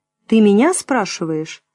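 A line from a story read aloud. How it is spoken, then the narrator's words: Angry. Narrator (Russian): зло сказал Олег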